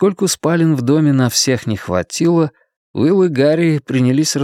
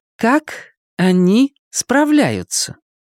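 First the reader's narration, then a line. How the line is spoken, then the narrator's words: Slow, loud, over-clear. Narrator (Russian): Медленно и громко, словно разговаривая с иностранцем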